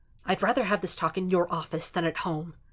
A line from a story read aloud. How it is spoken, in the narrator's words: he hisses